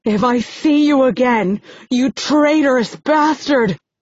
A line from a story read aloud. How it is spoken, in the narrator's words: I yell